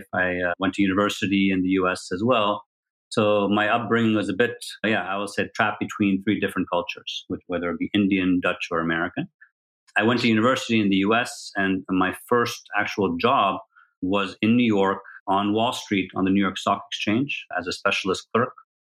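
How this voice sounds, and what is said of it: American English accent. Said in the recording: “as you can probably hear from my accent, is American”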